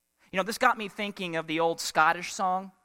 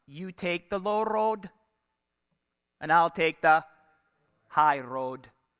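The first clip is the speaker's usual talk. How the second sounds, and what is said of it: Poor put-on Scottish accent. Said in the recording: “I'm sorry if you're Scottish. I just butchered that accent.”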